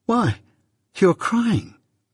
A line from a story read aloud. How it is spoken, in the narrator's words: I exclaimed in amazement